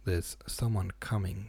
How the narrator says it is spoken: said he

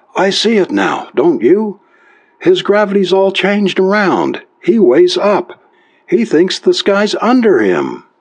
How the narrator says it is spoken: screamed

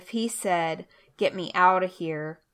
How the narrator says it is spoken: Ahab groaned to the driver of the chariot

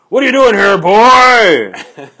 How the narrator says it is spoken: this guy jumps out and yells

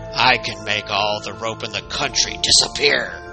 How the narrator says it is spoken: growled the hairy man

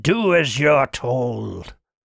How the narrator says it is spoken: growled Kirk

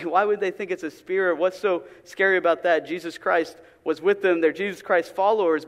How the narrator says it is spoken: You may chuckle and say

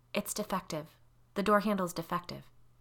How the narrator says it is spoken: whispered to herself

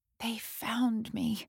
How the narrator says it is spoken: Trudy whispered

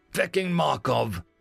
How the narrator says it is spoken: snarled through gritted teeth

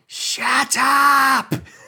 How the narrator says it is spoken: a cheeky private from one of the tents yell

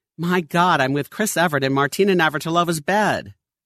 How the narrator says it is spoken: causing the gentleman to exclaim

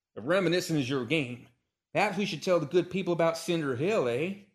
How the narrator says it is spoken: he declared hotly

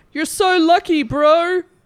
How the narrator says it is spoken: One of the filmers yells out

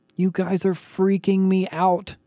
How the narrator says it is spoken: she whined

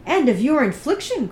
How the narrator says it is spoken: cried Elizabeth with energy

